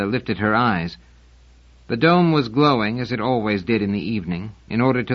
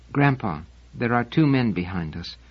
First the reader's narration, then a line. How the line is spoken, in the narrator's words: Wanda said softly